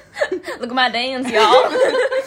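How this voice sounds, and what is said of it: Exaggerated put-on Southern accent. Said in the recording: “just like a peak southern accent. That would be horrible.”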